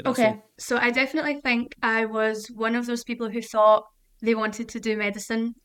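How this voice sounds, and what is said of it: Scottish accent. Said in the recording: “your beautiful mm-hmm. Scottish accent”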